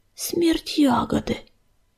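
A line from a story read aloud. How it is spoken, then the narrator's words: Terrified whisper. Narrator (Russian): в ужасе прошептал он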